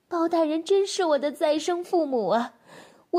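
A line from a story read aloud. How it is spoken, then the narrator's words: Crying woman. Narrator (Chinese): 那女子哭道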